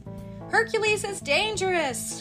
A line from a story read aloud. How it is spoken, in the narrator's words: cried one of the merchants